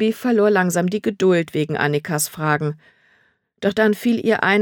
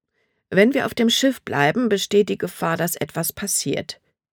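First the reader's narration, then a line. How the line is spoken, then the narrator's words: Plain. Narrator (German): sagte Libby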